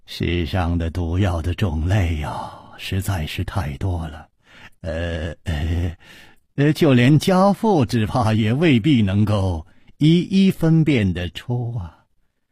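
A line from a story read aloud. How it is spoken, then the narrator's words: Sighing. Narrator (Chinese): 李玉涵叹了一口气说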